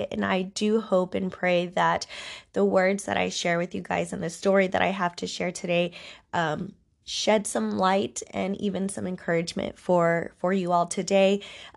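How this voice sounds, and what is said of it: Congested, stuffy voice. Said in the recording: “please excuse my voice i am going through some congestion healing up from some allergies ... that longing like congestion ... bear with me um, on my voice. This isn't how I normally sound.”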